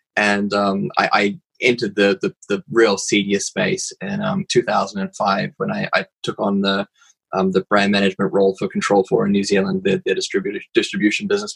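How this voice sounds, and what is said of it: New Zealand accent. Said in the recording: “I have a funny accent. It's because I'm actually a Kiwi originally.”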